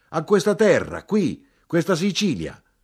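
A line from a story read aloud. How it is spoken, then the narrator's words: Shouted louder. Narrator (Italian): Più forte gridai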